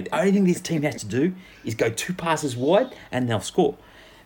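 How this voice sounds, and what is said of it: Gary Freeman impression, South African-sounding. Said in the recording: “He sounded South African then ... I was doing the Gary Freeman”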